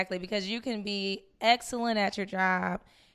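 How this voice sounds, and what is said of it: Usual voice. Nothing is said of it.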